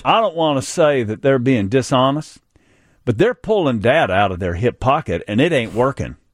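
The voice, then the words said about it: Put-on North Carolina accent. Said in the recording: “This is my North Carolina accent, by the way. ... Oh, it's good. It's really good. Seamless.”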